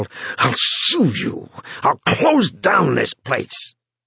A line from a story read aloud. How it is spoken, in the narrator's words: half-gasped, half-snarled